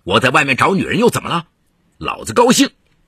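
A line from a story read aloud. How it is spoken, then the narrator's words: Angry embarrassed lecturing. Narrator (Chinese): 唐龙发面子挂不住，恼羞成怒，反过来教训儿子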